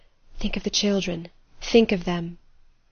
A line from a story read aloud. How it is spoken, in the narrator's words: Adèle's voice whispering